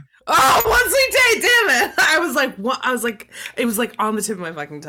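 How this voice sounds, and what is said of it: Usual voice. Nothing is said of it.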